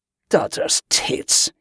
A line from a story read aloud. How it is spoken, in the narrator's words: he groaned